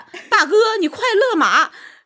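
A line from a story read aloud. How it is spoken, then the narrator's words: Loud shout. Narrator (Chinese): 张飞就大喊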